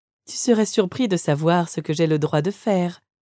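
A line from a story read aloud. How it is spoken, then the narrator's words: Soft reply. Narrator (French): répondis-je doucement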